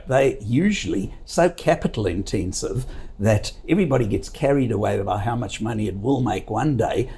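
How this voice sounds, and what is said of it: Speaker's own foreign accent. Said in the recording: “as you know from my accent, from a country that used to produce 85% of all the world's gold”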